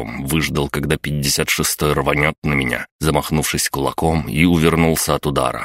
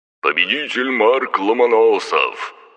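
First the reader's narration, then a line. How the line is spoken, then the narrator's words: Loud announcement. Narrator (Russian): громко объявил ведущий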